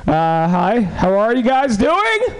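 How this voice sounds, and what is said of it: Yelling loudly. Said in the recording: “I'm yelling”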